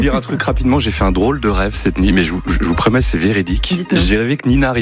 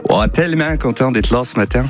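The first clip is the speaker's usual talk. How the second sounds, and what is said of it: Put-on Canadian French accent. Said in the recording (French): “on fait toute l'émission avec l'accent canadien”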